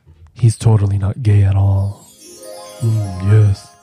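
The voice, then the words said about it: Put-on masculine man voice. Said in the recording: “I do this one voice. ... your man voice ... My man voice”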